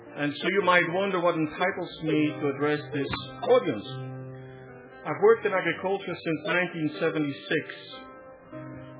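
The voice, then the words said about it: Flemish-accented English. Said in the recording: “you will notice a certain accent. That accent comes from my mother tongue, which is Flemish.”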